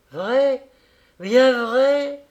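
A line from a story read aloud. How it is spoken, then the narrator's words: Joyful shout. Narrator (French): cria Pavel Pavlovitch, transporté de joie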